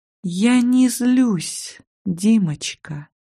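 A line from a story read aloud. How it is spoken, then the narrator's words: Fake sweetness. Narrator (Russian): притворно ласково ответила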